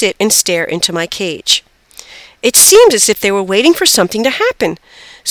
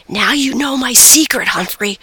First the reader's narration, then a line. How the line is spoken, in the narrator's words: whispered